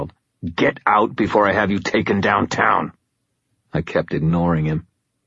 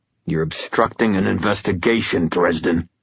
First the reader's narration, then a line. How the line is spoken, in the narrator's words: Green growled